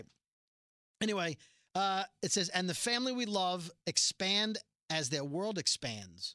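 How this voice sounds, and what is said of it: Usual voice. Nothing is said of it.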